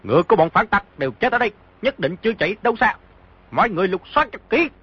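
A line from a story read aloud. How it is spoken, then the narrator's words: Shouting. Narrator (Vietnamese): một người quát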